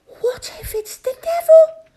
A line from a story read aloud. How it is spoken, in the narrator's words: whispered Toad